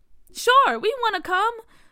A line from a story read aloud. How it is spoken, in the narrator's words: Bria said excitedly